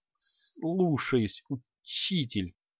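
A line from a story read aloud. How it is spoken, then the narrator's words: Strained mutter. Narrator (Russian): С трудом пробормотал Креол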